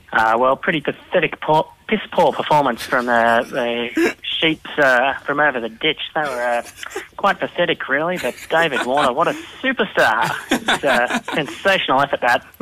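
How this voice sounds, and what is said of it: Imitates another person's voice. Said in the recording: “your best Ritchie Benaud impersonation ... I'm transported. I'm quite impressed.”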